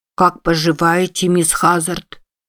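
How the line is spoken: Solemn small child. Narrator (Russian): очень торжественно произнес маленький Тат

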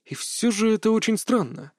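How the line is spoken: Thoughtful. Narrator (Russian): задумчиво проговорил Кевин

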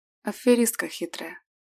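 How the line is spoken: Biased whisper. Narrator (Russian): Шепнул с предвзятостью

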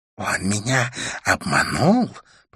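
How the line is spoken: Hiss. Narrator (Russian): прошипела мадам Жу

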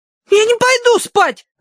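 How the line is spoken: Loud yell. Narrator (Russian): завопила Агнес

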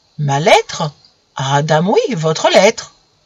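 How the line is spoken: Exclaimed. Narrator (French): Camille s'exclama

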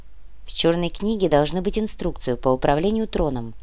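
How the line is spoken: Continued softly. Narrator (Russian): мягко продолжил Матвей

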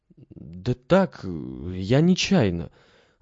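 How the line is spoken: Confused mumbling. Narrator (Russian): растерянно мямлил Алеша

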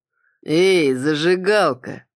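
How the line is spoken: Drawled. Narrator (Russian): протянул Кроу

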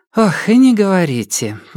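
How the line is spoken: Sighing, imitating someone. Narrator (Russian): вздохнула София, изображая Софию Ивановну

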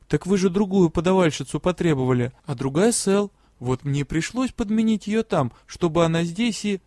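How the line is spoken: Barely audible. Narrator (Russian): едва слышно ответила

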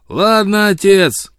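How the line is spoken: Shouting. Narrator (Russian): кричал он

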